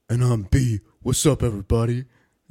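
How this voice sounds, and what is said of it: Tough-sounding imitation of another person. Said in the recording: “that's the same voice I've been using for you for like 10 years ... Your impression of me sounds cooler than the fucking real me ... I sound tough”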